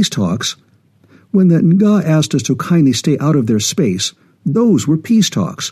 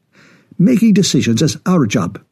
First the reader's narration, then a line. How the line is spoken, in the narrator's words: snapped Singh